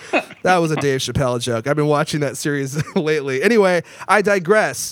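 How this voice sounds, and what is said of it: Usual voice. Nothing is said of it.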